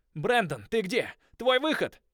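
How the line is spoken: Shout. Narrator (Russian): крикнул я

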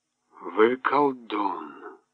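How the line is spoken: Muttered. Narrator (Russian): пробормотал Брабендер

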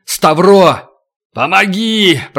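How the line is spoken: Shouted. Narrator (Russian): Туран крикнул

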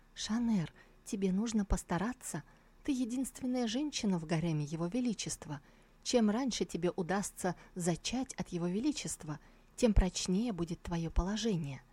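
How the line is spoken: Whispering in ear. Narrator (Russian): она зашептала ей на ухо

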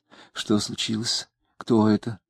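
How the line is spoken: Anxious whisper. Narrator (Russian): тревожным шепотом спросила она

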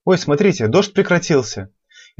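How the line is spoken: Astonished exclamation. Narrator (Russian): Изумленно воскликнула девушка

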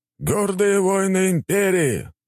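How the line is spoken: Loud address. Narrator (Russian): громко говорил генерал армии

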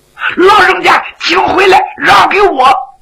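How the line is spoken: Shouted. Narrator (Chinese): 徐良在后边就喊

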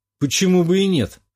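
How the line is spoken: Wry snort. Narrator (Russian): хмыкнул

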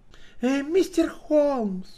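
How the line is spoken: Exclaimed. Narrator (Russian): воскликнула гостья

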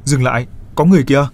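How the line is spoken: Loud shout. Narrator (Vietnamese): hét to

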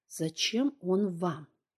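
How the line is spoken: Very quiet, breathless, through teeth. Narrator (Russian): Люся стиснула зубы и, переводя дух, сказала очень тихо

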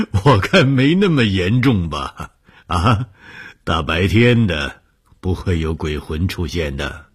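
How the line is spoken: Laughing. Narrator (Chinese): 红鱼笑了说

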